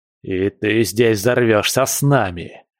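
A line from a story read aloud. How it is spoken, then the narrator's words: Angry hiss, cornered. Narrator (Russian): злобно зашипел пойманный в ловушку Эскобар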